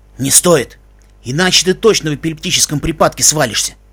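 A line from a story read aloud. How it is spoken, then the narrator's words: Whispered. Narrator (Russian): Себ шепнул ему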